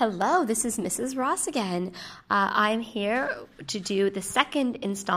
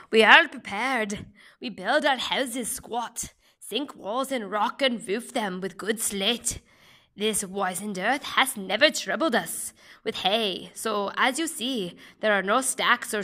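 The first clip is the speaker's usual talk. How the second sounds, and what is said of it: Deliberately bad Irish accent. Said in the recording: “Poems in Terrible Accents... it is going to be an Irish accent”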